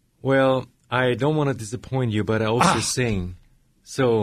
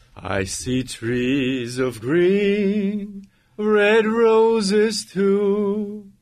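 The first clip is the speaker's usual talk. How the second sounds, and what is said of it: Operatic singing voice. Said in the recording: “in your operatic voice”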